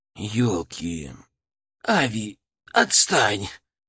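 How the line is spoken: Hoarse rasp. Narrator (Russian): прохрипел Тинголов

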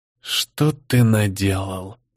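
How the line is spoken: Whisper. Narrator (Russian): прошептал Леда

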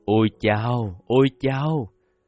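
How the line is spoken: Distant moaning. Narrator (Vietnamese): từ phía trong rừng có tiếng rên rỉ

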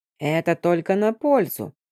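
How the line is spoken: Smug grumble. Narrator (Russian): самодовольно ворчала Хюльвад

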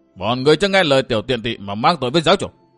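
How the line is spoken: Terrified old man's shout. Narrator (Vietnamese): Tứ cấp lão nhân kinh hoàng quát lớn

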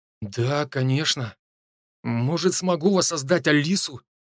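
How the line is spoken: Uncertain young man. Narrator (Russian): неуверенно ответил парень

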